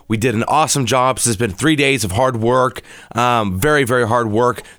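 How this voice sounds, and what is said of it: Strained, nearly lost voice. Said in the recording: “As you can tell, I am about to lose my voice.”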